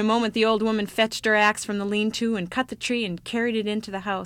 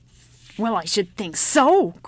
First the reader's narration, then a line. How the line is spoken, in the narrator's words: growled the old woman